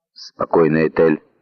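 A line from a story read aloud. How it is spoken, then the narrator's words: Muttered. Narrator (Russian): пробормотал мистер Кади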